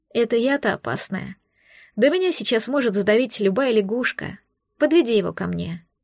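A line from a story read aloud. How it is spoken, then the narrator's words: Tired. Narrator (Russian): Сказала устало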